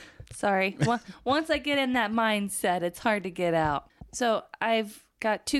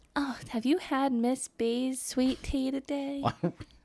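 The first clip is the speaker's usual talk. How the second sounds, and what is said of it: Put-on Southern Belle accent. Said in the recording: “Don't do accents, please. ... But I'm a Southern Belle. ... I think my accents are just fine. ... They're not that good. They mostly all turn into this.”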